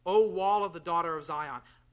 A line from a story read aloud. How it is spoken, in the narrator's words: Their heart cried to the Lord